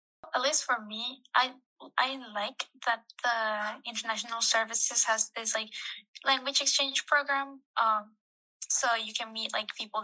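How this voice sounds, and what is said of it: Non-native English accent. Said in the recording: “English is not my first language, so I kind of have an accent”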